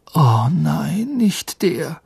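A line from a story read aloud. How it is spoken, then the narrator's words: Groan. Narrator (German): stöhnte Harry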